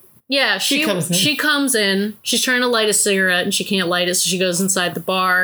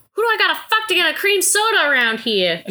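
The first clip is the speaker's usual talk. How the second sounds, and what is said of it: 1940s transatlantic accent. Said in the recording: “She's got this like kind of like ... transatlantic accent. ... It's 1940s transatlantic”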